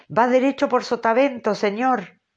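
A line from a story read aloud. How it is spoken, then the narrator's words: Shouted. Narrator (Spanish): le gritó Stubb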